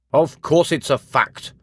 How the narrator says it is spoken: answered testily

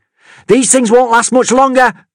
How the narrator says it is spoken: Amity yelled

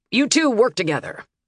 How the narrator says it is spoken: Harkin snapped

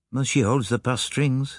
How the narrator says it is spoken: said Poirot gravely

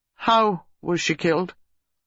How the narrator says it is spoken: Reeves asked stiffly

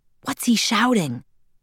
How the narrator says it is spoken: whispered

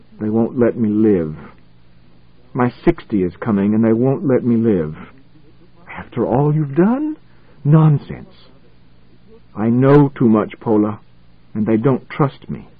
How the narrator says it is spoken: his face was yellow and thin as he muttered

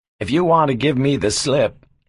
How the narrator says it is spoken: he chuckled

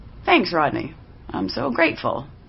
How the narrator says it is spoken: I said dryly

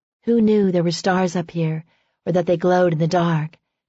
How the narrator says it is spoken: Faith said in a low whisper

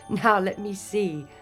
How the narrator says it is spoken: laughed the fairy godmother

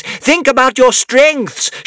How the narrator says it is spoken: shouted Caliburn

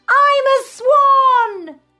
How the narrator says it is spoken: he shouts

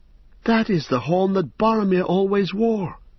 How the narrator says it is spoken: cried Pippin

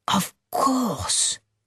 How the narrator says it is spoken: Rosalie whispers back

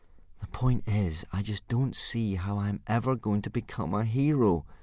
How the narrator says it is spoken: said Hiccup gloomily

